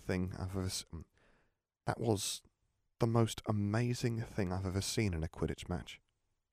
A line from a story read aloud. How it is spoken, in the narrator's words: she said quietly